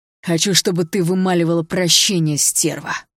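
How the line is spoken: Menacing hiss. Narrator (Russian): прошипел Рыжий

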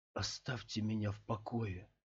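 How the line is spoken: Barely audible mutter. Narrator (Russian): едва слышно пробормотал Скотт

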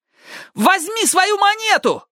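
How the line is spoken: Yell. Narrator (Russian): завопил Ник

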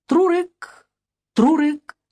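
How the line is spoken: Faint, slightly sad. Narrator (Russian): Чуть грустно и негромко доносилось

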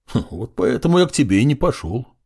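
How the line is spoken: Snorting. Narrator (Russian): хмыкнул Драко

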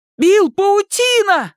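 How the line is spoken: Shouting. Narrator (Russian): закричал Майк

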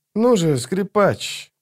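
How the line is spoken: Grumbled. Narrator (Russian): проворчал он

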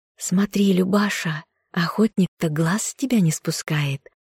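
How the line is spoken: Whispering in ear. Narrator (Russian): Весняна зашептала на ухо подруге

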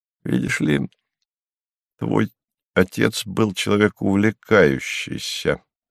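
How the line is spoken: Soft gentle. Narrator (Russian): мягко сказал Станислав

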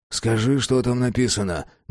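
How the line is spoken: Grumbled. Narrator (Russian): буркнул Феликс

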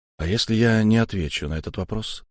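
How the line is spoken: Calm but firm. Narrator (Russian): спокойно, но твердо сказал Ашанин

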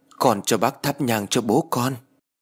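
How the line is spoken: Trembling voice. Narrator (Vietnamese): Bà run run đôi tay nói với ông Hải

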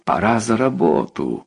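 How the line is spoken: Joyful inner thought. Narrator (Russian): радостно подумал

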